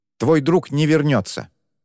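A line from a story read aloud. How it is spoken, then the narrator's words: Sharp declaration. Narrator (Russian): резко заявив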